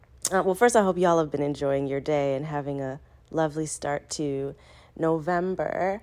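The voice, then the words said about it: Congested voice from a cold. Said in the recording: “I am sick with a cold, so y'all will hear that in my voice today.”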